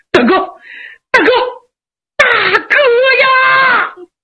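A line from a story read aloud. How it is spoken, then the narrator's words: Loud wailing. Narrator (Chinese): 杨七郎放声大哭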